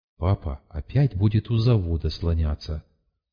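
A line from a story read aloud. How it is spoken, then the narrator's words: Whisper. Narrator (Russian): Ларик мне шепнула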